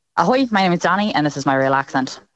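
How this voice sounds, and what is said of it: Put-on Irish accent. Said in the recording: “third accent ... Irish.”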